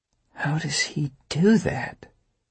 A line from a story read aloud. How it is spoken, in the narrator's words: she muttered